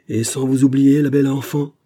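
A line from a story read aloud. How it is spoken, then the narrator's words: Exclamation again. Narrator (French): s'écria-t-il de nouveau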